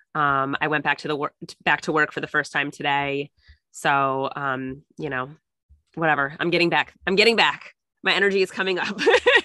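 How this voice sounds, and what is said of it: Slightly nasal, congested voice. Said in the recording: “I'm a little nasally still. You can still hear it in my voice.”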